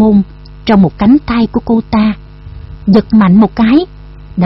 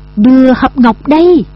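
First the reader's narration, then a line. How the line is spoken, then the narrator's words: Ferocious roar. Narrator (Vietnamese): Tùng Đắc Kim gầm lên hung hãn như một con thú điên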